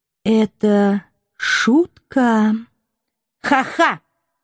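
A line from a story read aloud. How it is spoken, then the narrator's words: Flat wooden voice. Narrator (Russian): Деревянным голосом поддержала Фрея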